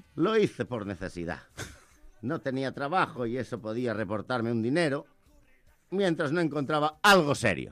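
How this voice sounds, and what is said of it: Galician accent in Spanish. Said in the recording (Catalan): “m'ha agradat molt el teu accent gallec”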